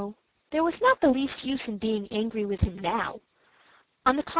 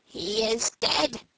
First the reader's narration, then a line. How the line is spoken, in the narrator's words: said the magpie with a croak